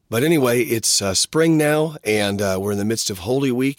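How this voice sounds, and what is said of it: Worn-out voice from a cold. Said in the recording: “my voice is trashed ... gave me a cold”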